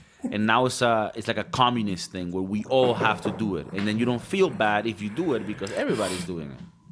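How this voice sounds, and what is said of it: Usual voice. Nothing is said of it.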